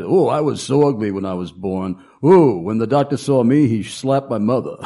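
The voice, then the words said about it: Imitates another person's voice. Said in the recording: “Rodney Dangerfield, he said ... you do a good impression.”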